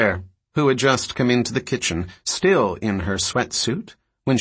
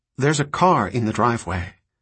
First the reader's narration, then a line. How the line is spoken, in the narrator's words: Claire said, her voice concerned